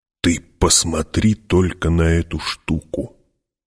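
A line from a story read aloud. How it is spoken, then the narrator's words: Whispering. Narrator (Russian): прошептал Стилгар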